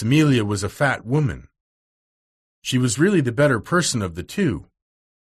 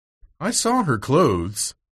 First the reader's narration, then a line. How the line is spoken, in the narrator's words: said Miss Amelia